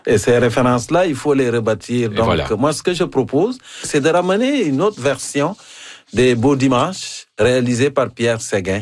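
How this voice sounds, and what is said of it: African accent in French. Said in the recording (French): “mon accent africain”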